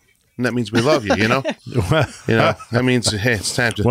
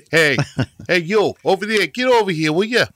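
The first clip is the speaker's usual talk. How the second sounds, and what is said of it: Mock Boston accent. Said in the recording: “Not like it's Bostonians”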